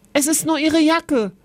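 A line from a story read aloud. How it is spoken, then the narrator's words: Calling out. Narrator (German): rief Kevin Oskar zu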